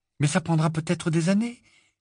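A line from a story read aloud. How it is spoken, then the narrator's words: Exclaiming. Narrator (French): s'exclama Hermione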